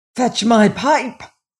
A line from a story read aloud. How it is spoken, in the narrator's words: yelled the king